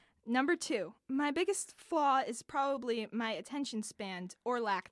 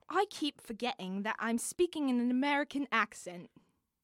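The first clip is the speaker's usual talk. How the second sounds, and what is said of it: Put-on British accent. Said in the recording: “You should have said it in a British accent.”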